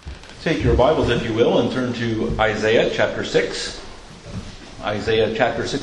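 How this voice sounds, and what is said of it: American accent. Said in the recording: “I do apologize for my American accent”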